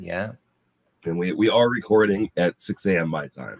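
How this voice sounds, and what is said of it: Sick-sounding voice. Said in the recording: “can tell by your voice, maybe uh maybe not as all right for you. Sounds like you still got a little something going on there... I'm still sick... as a smoker... it's harder in the morning”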